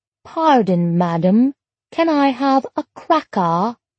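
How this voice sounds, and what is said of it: Mock English accent. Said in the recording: “She said in a mock English accent,”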